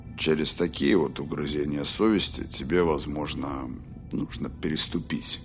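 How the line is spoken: As gently as possible. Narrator (Russian): сказал Роланд, как только мог мягко

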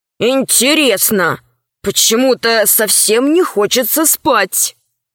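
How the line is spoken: Grumble. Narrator (Russian): Пашка пробурчал

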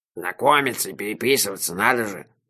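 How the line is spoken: Grumbling. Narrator (Russian): проворчал пан Иржи

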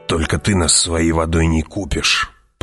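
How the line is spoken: Growled. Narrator (Russian): прорычал Джамис

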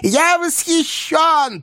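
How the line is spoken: Shouting. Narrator (Russian): прокричал Коровьев

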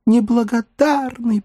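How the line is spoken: Moaned. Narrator (Russian): простонала она

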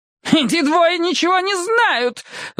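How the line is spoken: Woman's shriek. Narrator (Russian): взвизгнула женщина

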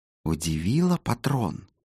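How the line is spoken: Heated whisper into ear. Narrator (Russian): нагибаясь к уху купца, горячо зашептал доктор

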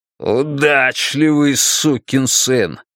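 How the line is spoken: Growled. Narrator (Russian): прорычал Стерлинг

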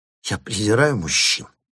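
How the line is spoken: Hissed through teeth. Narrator (Russian): прошипела она сквозь свои маленькие зубки

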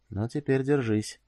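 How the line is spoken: Whisper from side of mouth. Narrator (Russian): прошептал он ей уголком рта

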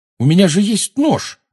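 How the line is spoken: Exclaiming. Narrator (Russian): воскликнул Гарри

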